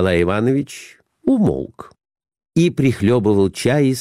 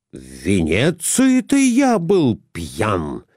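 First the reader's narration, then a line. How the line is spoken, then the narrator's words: Exclaimed, choking. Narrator (Russian): воскликнул Николай Иванович и поперхнулся чаем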